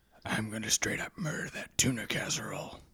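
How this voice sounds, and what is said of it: Batman-style character voice. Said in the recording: “I was going for the Christopher Nolan Batman”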